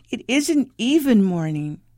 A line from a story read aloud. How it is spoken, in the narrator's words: she whined